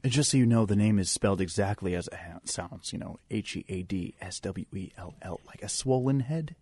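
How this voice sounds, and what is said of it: Exaggerated slow radio announcer voice. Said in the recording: “You're really working your radio voice ... He's trying really hard. I mean, we could all talk like this ... Slow it down ... that's like NPR voice”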